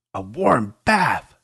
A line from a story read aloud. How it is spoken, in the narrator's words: Sasha screamed